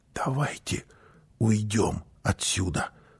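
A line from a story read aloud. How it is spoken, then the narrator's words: Mother's whisper. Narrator (Russian): прошептала мама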